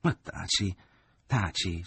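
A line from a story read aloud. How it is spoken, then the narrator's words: Pleading mother. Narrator (Italian): supplicò la madre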